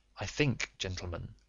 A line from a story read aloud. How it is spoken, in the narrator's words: said Holmes quietly